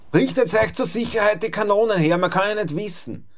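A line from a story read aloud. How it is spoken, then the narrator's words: Calling out. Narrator (German): rief der Griesfranz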